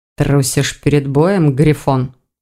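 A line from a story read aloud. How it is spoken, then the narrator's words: Through clenched teeth. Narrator (Russian): сквозь зубы проговорил Тиган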